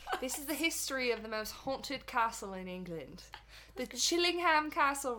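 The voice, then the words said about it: Attempted English accent. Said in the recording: “I'm going to take us to England. ... UK. England. Can you have to say the whole thing in an accent?”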